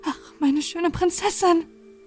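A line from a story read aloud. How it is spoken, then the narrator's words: Called out. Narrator (German): rief sie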